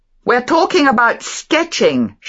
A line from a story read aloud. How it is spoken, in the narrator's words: shouted Beatrice to her grandmother